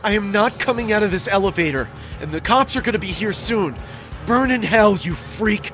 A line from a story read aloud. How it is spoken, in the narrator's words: I screamed back, saying